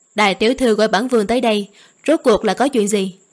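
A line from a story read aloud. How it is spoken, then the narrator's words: Cold, gloomy question. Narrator (Vietnamese): Sắc mặt Sở Lăng Hiên âm trầm, lạnh lùng hỏi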